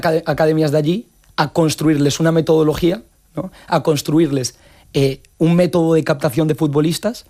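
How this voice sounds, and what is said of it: Galician-accented Spanish. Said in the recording (Spanish): “tú tienes acento gallego”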